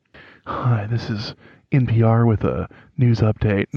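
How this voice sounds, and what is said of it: Imitates a public radio announcer voice. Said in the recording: “I might get my NPR voice for this ... I can't do it”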